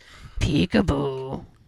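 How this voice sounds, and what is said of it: Creepy voice. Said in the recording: “can you imagine that in like a creepy voice?”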